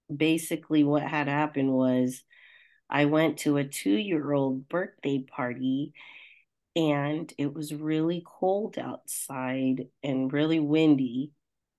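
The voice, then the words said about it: Voice sounds slightly off, sick. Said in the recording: “as you can hear from my voice, it's a little bit off.”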